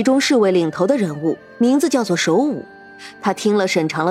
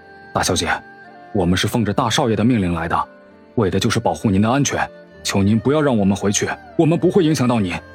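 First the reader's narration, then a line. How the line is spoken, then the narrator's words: Deep, grave. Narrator (Chinese): 沉声道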